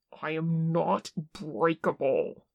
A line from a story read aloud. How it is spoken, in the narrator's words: he snarled into Che's mouth